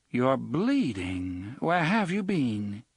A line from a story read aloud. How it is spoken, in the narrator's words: She made this inquiry in her cultured Vassar voice, pronouncing bean so it rhymed with scene